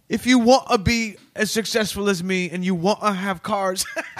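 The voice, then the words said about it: Odd blended American-British accent. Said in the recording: “talking with a weird blended accent that's part American, part British, and all odd ... that's how he sounds”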